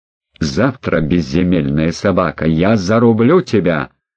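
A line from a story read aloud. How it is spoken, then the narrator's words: Growl. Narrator (Russian): прорычал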